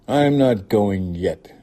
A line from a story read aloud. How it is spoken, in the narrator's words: she snapped